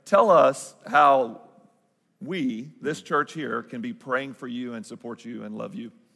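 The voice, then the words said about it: Southern Arkansas accent. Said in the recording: “my Southern Arkansas accent”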